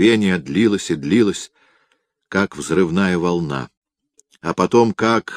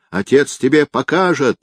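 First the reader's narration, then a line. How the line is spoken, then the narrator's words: Yelled. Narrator (Russian): орала она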